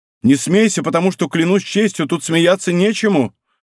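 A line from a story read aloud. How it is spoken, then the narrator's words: Fearful. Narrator (Russian): Он произнес эти слова с таким серьезным видом и с таким страхом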